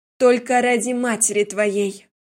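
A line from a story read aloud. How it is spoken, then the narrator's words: Loud and stern. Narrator (Russian): Громко и строго сказала я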